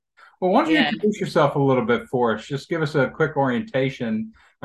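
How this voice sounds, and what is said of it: Slight Southern Kentucky accent. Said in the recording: “I hear that Southern accent you have ... there's a little bit of Kentucky still left in me ... it never really goes away”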